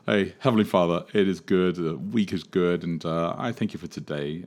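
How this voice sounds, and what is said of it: American accent. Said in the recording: “Pray in your American accent.”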